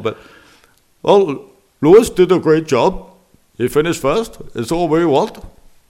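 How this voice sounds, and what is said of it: Clipped, choppy accented impression. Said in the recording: “I've been trying to do Nicky's accent recently ... I've got to work on this a bit more ... It's beginning to sound like an Indian accent, actually ... He's very chopped”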